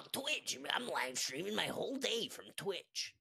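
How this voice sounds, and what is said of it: Rough but accurate Gary Vee impression. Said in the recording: “That's a terrible Gary Vee impression. ... accurate voice-wise, though. ... It was rude, but accurate. ... It's like if Joe Pesci was a bass.”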